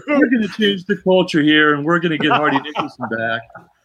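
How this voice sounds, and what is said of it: Tony Dungy impression. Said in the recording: “your Tony Dungy impression”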